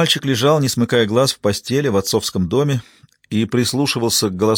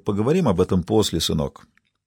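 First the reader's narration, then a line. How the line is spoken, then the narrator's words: Gentle remark. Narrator (Russian): дядя Питер мягко заметил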